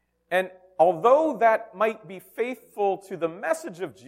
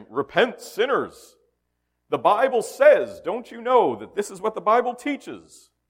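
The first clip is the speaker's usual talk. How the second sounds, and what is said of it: Preachy radio voice. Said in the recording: “You can hear my radio voice starting to come out from those programs I listened to as a child.”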